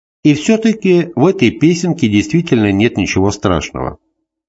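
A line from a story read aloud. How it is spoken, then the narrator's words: Calm confirmation. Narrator (Russian): спокойно подтвердил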